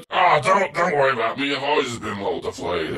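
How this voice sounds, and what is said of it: A put-on character voice. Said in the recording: “why did we give him a voice now? ... This has always been Vince's voice.”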